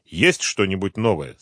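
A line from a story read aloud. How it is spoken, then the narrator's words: Plain. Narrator (Russian): спросил директор ФСБ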